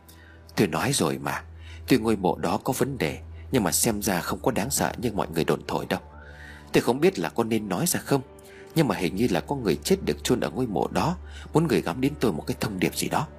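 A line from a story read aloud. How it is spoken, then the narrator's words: Soft male voice. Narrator (Vietnamese): Ông Tú khẽ nói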